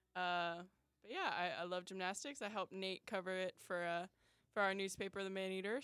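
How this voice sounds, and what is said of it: Slight Chicago accent. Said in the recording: “a little bit of a Chicago accent”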